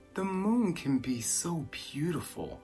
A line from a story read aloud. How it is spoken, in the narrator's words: he whispered with a sigh